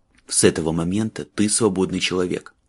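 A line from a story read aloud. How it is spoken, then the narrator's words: Quiet and fast. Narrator (Russian): Майлз говорил тихо и быстро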